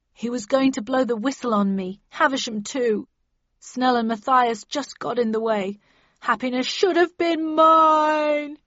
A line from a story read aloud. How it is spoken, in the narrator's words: he sobbed